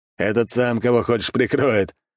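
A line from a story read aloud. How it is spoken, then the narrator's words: Laughing. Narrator (Russian): рассмеялся Павел Таранов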